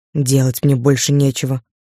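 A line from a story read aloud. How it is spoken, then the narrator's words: Grumble. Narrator (Russian): буркнул Влад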